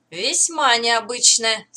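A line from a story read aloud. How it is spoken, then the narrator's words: Calmly answered. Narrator (Russian): спокойно ответил Моррисон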